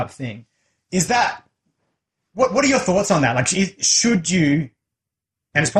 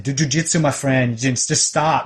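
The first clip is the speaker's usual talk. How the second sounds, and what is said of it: Put-on Brazilian accent. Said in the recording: “almost in a Brazilian accent”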